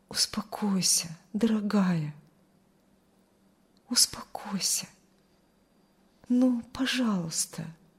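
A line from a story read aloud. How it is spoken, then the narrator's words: Quiet whisper. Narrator (Russian): тихо шептал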